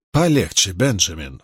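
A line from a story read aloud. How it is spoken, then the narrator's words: Low warning. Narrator (Russian): вполголоса предупредил доктора мистер Джонстон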